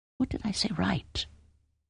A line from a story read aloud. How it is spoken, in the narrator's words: She sighed